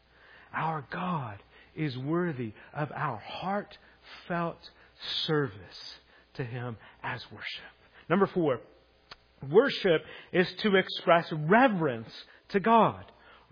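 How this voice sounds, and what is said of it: American southern accent. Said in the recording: “I said that with a southern accent. ... I'm southern”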